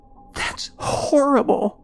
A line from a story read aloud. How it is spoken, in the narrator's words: Joan gasped